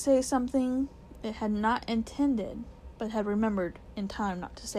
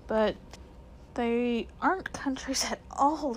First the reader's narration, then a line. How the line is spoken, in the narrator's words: Lucy said, almost laughing